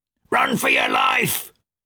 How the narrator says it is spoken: a shout of

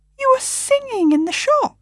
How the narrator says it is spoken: he exclaimed in a tone of pure amazement

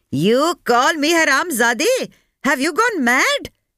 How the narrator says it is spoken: shouted, her voice breaking

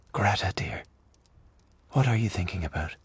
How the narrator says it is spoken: he said softly

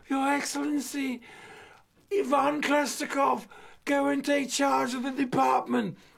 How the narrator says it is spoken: 35,000 messengers shout with a single voice

